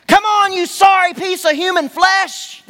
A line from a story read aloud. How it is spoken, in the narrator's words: the guards would yell at us